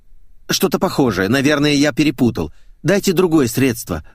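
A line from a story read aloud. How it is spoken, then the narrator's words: Exclamation. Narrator (Russian): воскликнул я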